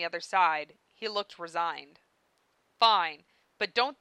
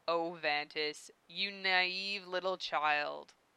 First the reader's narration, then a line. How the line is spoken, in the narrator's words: Dave chuckled